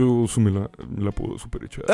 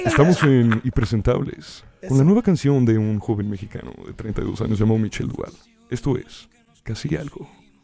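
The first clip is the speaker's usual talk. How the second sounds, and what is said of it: Radio announcer voice. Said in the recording (Spanish): “Con voz de locutor de radio.”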